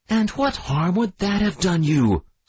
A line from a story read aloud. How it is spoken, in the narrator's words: screamed the widow